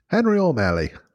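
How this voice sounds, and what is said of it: Put-on Irish accent. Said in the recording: “Do you have a good Irish accent? ... Smooth, clean.”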